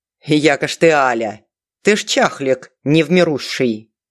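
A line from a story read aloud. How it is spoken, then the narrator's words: Unexpected deep bass guffaw. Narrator (Russian): Неожиданным басом гоготнула Галя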